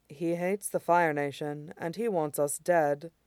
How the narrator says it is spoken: Mai said calmly, as if it didn't shake her to the soul

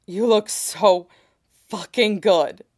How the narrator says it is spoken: Sid gasps out

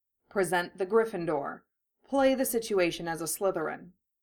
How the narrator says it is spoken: Severus said, his tone calm, even, and meant to be reassuring

